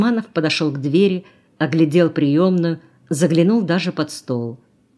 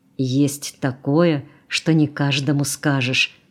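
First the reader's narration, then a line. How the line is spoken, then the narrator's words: Whispered. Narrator (Russian): зашептал он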